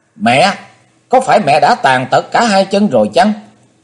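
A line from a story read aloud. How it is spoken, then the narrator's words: Sudden shout. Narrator (Vietnamese): Chí Tôn bỗng hét lên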